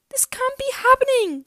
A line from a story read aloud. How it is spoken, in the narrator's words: cried Jacqueline